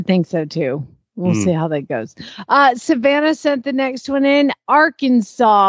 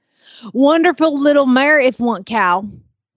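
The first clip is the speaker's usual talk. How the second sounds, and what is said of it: Put-on Arkansas Southern accent. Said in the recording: “Arkansas kind of has that Oklahoma feel ... that kind of has a different accent in Arkansas ... Arkansas is like a mix of Louisiana and Oklahoma. I don't know if I'm capable, but I'll give it a try.”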